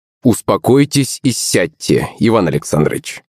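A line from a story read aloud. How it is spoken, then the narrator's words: Plain. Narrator (Russian): ответил полицейский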